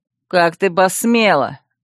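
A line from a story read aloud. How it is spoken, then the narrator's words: Vicious snarl. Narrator (Russian): злобно оскалился парень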